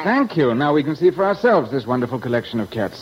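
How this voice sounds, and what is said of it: English accent. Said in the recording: “I love that English accent.”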